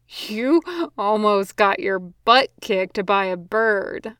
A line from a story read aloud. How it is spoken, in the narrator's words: Ron wheezed out, wiping at his eyes